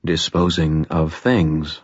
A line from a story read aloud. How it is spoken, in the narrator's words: I said quietly